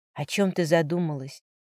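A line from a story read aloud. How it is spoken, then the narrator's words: Quiet whisper. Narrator (Russian): Тихий шепот Ардена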